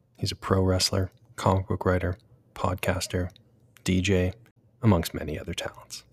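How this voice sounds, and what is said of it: Polished NPR-style radio voice. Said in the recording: “your most NPR voice ever”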